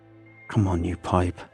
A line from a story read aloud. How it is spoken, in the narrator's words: I hiss through the mouthpiece